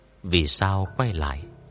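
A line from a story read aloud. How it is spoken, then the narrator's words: Soft question. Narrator (Vietnamese): Lâu Ngư khẽ giọng hỏi cô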